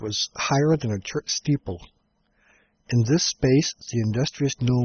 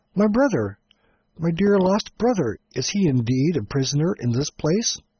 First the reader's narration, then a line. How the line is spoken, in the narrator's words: Shaggy exclaimed